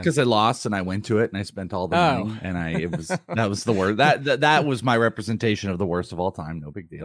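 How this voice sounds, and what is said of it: Slightly hoarse voice. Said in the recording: “My voice, a little bit hoarse there ... I feel like I sound so much different than normal.”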